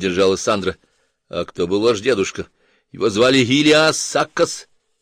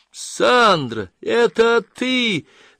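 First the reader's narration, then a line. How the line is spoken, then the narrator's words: Yelled. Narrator (Russian): завопила Дженни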